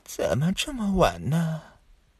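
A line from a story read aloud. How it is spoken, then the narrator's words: Hoarse distant voice. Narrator (Chinese): 渺渺夜空中传来一阵沙哑的声音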